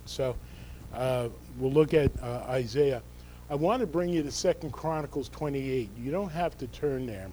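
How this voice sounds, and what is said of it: North Jersey accent. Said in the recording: “I can't hide my North Jersey accent”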